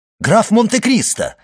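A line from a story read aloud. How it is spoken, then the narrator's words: Exclaiming. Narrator (Russian): воскликнул Моррель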